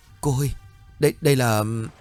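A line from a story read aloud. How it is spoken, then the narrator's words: Stammering child. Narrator (Vietnamese): Miệng của con nhỏ lắp bắp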